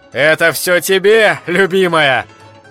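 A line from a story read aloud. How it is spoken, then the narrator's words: Happy shouting. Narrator (Russian): кричал счастливый Ференс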